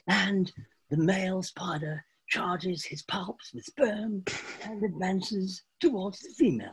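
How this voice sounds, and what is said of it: David Attenborough impression. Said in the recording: “Great impression.”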